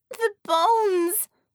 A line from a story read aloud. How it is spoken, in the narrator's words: Einhorn wailed, appalled